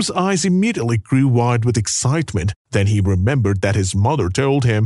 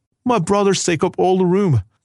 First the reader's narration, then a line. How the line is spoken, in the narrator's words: cried Kim in a flash of anger